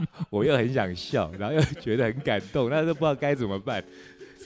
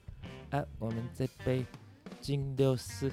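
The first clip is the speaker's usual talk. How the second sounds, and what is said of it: Imitating a friend's accent. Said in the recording (Chinese): “用他那个口音说”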